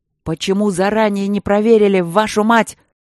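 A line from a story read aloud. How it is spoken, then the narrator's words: Furious yell. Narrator (Russian): заорал Игорь Иванович багровея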